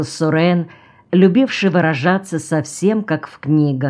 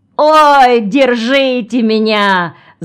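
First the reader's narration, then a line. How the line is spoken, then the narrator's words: Shout. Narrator (Russian): закричал Ремко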